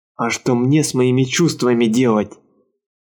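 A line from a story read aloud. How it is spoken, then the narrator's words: Sullen growl. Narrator (Russian): угрюмо прорычал Гарнео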